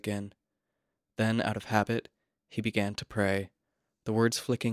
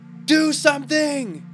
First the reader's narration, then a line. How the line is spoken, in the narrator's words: shouted